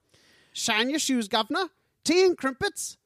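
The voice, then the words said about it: Put-on Cockney accent. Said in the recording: “it's a Cockney accent. That's the only accent I can do.”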